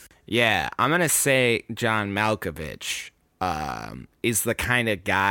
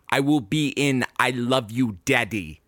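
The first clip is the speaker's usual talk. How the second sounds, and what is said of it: John Malkovich impression. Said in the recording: “you just did a very good impersonation.”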